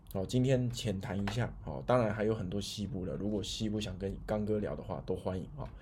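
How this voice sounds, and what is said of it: Speaking more quietly than usual. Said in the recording (Chinese): “今天的这个讲话比较小声一点”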